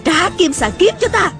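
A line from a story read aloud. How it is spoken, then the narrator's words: Old beggar woman screaming. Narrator (Vietnamese): Một mụ ăn mày hét lên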